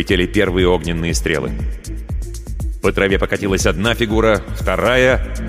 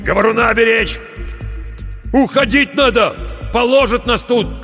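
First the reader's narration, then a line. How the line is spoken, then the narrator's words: Shout. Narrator (Russian): крикнул он проводнику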